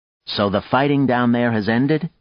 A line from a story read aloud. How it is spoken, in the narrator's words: Nadia said